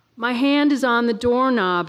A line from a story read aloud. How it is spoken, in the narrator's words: I yelled